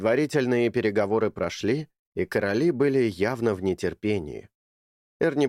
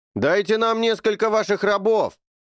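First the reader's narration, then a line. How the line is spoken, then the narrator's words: Shouting. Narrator (Russian): крикнул Чарли королям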